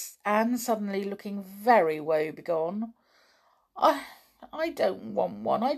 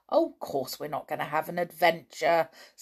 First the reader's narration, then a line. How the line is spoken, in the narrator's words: said Dick scornfully